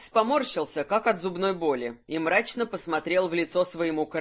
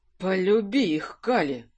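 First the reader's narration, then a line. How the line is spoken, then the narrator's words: Breathed out. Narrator (Russian): выдохнул Кирсан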